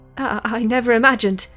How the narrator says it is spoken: stammered Miss Louise Brown

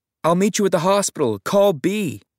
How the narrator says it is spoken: I just shouted

